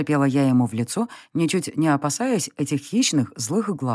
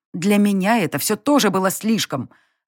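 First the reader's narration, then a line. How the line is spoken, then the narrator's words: Barked retort, woman. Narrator (Russian): рявкнула в ответ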